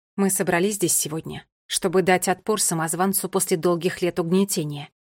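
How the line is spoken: Firm, resolute voice. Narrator (Russian): произнесла она твердым голосом, несмотря на опасность

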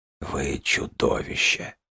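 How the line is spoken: Whispered. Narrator (Russian): прошептал он

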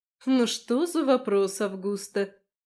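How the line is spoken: Lazy reply. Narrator (Russian): лениво откликнулась Марион

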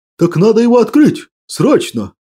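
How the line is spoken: Exclaimed. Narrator (Russian): сверкая глазами, воскликнул Лазарь Селиверстыч

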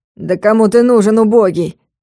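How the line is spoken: Scornful snort. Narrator (Russian): фыркнул приятель Дениса

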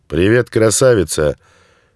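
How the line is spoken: Loud bark. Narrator (Russian): гаркнул он

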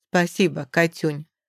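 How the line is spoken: Affectionate. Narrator (Russian): отсылает ей ласково

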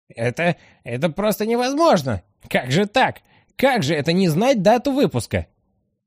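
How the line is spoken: Sudden high-pitched shout. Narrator (Russian): Овца неожиданно для всех выкрикнула тонким голосом

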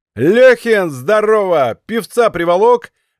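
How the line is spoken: Loud shout. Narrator (Russian): громко закричал он

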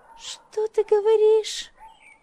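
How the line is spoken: Shrill squeal. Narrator (Russian): взвизгнула та

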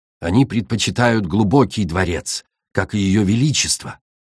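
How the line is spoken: Plain. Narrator (Russian): ответил

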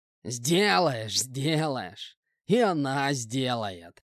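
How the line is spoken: Sly, smirking. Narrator (Russian): Ехидно улыбаясь, ответил мужик

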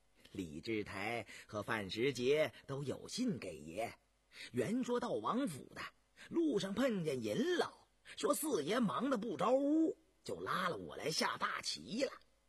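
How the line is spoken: Laughing. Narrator (Chinese): 陈士官笑道

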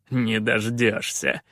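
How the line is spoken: Chuckling. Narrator (Russian): хохотнул Калаан

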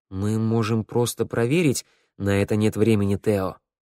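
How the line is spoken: Soft. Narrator (Russian): мягко сказал Вик

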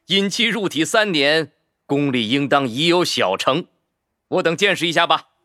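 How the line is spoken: Laughing. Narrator (Chinese): 周寒正笑道

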